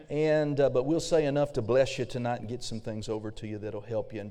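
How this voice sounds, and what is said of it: Slightly raspy voice. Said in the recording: “my voice is a little bit raspy”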